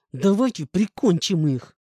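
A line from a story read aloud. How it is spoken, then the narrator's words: Hateful hiss through gritted teeth. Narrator (Russian): Скрипя зубами, голосом полным ненависти прошипел осел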